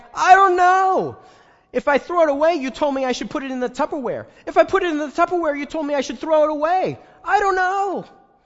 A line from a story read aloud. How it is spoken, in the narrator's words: my friend yells back